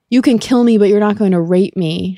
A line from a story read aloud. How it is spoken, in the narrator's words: she cried